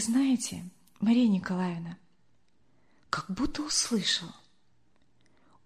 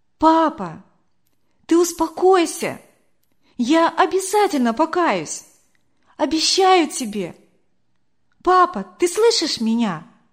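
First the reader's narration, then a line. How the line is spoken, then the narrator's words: Loud, into the ear. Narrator (Russian): Не выдержала я, громко так ему в ухо сказала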